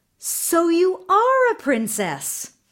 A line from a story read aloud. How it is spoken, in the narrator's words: the queen cried